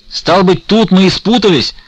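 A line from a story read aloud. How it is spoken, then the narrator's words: Heated shout. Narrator (Russian): закричал, разгорячась Потап Максимович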